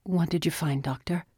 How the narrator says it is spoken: Shane asked

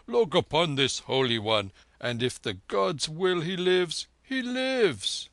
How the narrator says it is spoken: the Jat cried

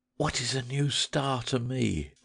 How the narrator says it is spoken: cried the weeping woman

